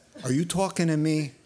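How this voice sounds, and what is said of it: Put-on New York accent. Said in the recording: “in real New York accent”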